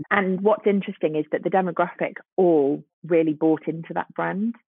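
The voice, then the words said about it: Voice fading, going hoarse. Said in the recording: “losing my voice.”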